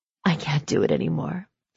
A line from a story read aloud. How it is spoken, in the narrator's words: she whispered